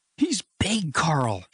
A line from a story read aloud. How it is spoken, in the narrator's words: she cried